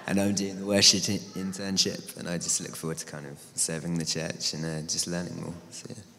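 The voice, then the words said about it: Voice strained by sore throat. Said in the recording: “I've got a sore throat, sorry.”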